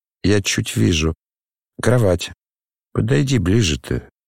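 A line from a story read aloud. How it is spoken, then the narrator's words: Quiet suggestion. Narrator (Russian): тихо предложил Рогожин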